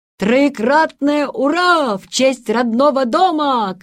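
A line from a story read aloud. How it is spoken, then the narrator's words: Shout. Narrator (Russian): крикнул Ван Моунен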